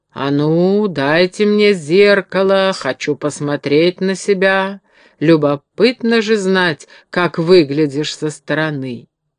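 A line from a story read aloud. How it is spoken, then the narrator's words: Booming low voice. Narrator (Russian): Великан заговорил гулким низким голосом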